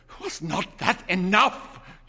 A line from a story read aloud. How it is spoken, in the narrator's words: demanded fiercely